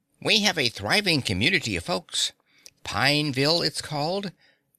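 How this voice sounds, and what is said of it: Cheerful character voice. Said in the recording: “in his cheerful voice.”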